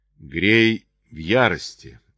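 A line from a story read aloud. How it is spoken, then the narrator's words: Exclaiming. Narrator (Russian): воскликнул Чарли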